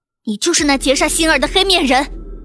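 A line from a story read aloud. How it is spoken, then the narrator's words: Loud demanding. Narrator (Chinese): 水清瑶大声质问道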